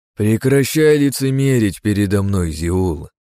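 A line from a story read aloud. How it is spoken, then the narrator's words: Icy, interrupting. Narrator (Russian): изрек я ледяным тоном, перебивая архидемона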